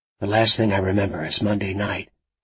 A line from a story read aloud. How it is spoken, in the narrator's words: he murmured in his low voice, making her struggle to hear him